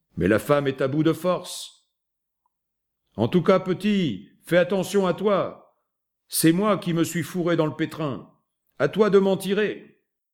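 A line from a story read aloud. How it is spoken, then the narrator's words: Shouted. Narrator (French): lui cria Spillane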